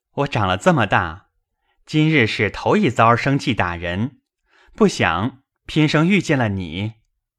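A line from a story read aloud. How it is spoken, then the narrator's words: Laughing. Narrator (Chinese): 宝玉笑道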